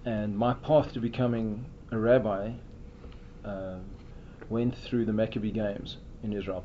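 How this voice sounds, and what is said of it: South African English accent. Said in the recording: “From my accent, you can tell I'm not Native American. I grew up in South Africa”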